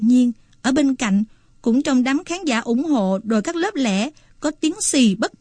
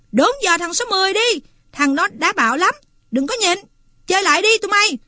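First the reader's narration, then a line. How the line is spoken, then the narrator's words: Agitated yell. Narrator (Vietnamese): Tần cảm thấy bực bội, máu chảy rần rật, người nóng ran, và nó hét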